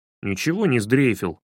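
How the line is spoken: Grumbling. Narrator (Russian): пробурчал Славка

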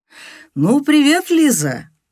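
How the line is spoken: Fake enthusiastic exclamation. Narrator (Russian): воскликнул доктор Горелик с ненатуральным энтузиазмом

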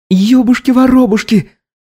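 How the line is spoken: Shriek. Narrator (Russian): вскрикнула несчастная

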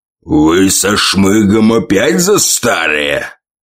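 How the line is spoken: Growled. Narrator (Russian): прорычал он

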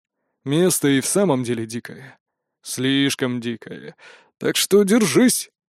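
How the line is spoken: Very quiet. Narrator (Russian): кивнул Прутковский и совсем тихо добавил

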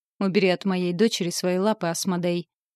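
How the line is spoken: Growled. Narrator (Russian): Зарычал папулька

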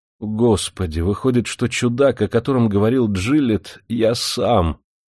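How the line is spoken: Grieving moan. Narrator (Russian): горестно простонал Кит

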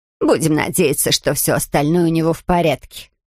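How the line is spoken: Grumbling. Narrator (Russian): проворчала миссис Бёрд

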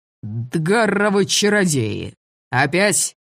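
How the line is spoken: Roaring. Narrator (Russian): взревел он

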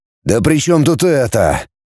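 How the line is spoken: Pained voice. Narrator (Russian): страдающим голосом сказал отец

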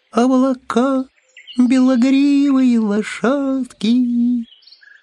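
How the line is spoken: Thin ethereal singing voice. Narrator (Russian): кто-то на этом облаке тоненьким заоблачным голоском запел

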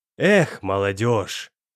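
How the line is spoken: Heavy sigh. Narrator (Russian): Тяжело вздохнул Иваныч

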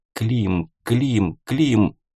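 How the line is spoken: Whispered into headset. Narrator (Russian): Она шептала в гарнитуру

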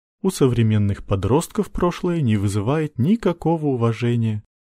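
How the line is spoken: Sighing. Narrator (Russian): вздохнула она

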